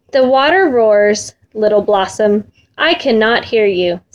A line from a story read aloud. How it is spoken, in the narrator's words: said the mother